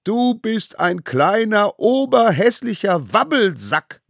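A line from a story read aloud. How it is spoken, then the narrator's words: Group bellowing. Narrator (German): brüllten sie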